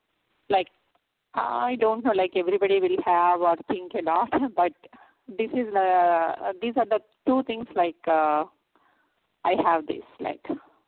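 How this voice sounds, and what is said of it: Strong accent, hard to understand. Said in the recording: “it's because of your accent that it's a little difficult for me to understand”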